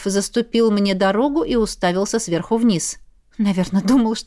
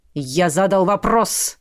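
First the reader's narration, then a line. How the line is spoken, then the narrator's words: Growling, commanding. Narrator (Russian): В голосе послышались рычащие приказные нотки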